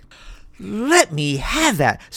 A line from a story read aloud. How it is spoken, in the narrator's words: screamed the shiny-headed Mr